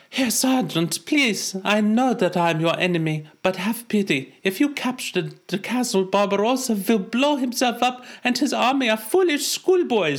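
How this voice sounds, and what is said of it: Attempted German accent. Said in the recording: “Can you do a German accent? ... Well, I'll try”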